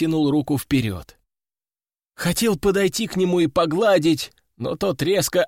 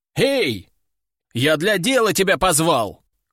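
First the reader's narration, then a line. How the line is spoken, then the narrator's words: Shouting after someone. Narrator (Russian): крикнул ему вслед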